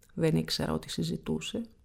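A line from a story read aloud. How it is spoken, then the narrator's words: Smiling. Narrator (Greek): χαμογέλασε η Φανή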